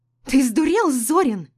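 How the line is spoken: Shrill shriek. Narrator (Russian): взвизгнула Ирена

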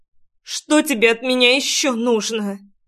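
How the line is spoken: Anguished, sobbing girl. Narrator (Russian): Надрывным голосом спросила девчонка, всхлипнув в придачу

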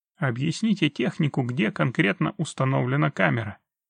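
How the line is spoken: Commanding. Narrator (Russian): велел следователь

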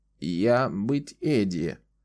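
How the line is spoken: Creaky voice. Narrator (Russian): ответила она скрипучим голосом

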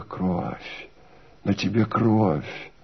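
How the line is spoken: Quiet. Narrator (Russian): отвечала она тихо

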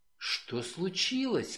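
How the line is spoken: Whisper. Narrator (Russian): прошептала она

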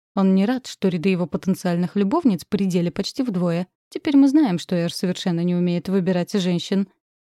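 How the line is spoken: Snorting. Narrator (Russian): хмыкнул Хашаль

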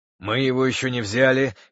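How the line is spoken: Breathless wheeze. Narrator (Russian): хрипел задыхающийся музыкант

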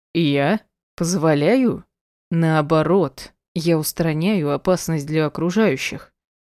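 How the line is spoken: Menacing through clenched teeth. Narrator (Russian): Угрожающе процедил сквозь зубы большой мужик

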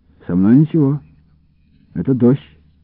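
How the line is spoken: Calm reply. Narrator (Russian): ответил я спокойно

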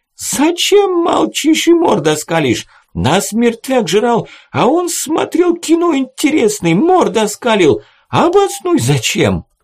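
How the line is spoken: Shrieking scream. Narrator (Russian): с визгом закричал

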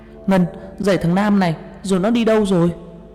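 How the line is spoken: Urgent shout. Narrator (Vietnamese): Tôi chạy đến la lên

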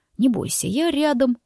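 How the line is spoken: Sudden whisper. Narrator (Russian): неожиданно шепнул он

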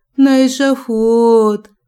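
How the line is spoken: Howling aloud. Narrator (Russian): взвыла в голос

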